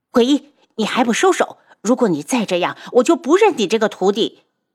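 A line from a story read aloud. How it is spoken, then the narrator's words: Angry shout. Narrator (Chinese): 白锦怒喝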